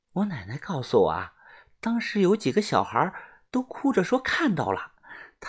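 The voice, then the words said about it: Quiet, lowered voice. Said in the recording (Chinese): “声音变小， 小声的说”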